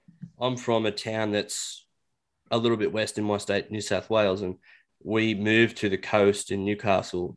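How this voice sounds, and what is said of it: Thick Australian accent. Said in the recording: “I've got probably a thicker accent than normal compared to some other city dwellers ... Australians have different accents”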